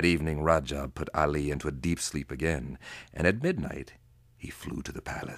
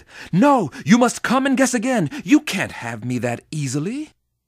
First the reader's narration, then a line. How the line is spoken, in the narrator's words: she angrily said